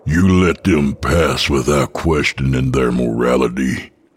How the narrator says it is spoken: I growl

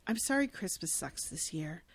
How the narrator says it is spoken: Langston looks at her sadly and says

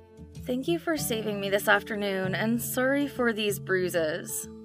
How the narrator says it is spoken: she suddenly fell silent and mumbled

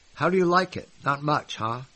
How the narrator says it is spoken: he asked

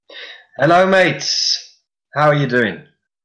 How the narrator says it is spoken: shouts Dora

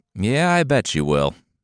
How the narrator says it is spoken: the Tsar sighed

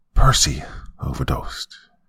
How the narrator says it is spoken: he said quietly

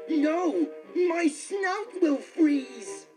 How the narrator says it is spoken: The pig squealed

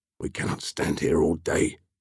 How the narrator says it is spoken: Basan murmured

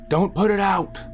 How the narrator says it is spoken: they were shouting

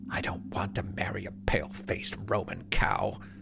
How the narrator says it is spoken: Hiram mutters, his voice dripping with disdain

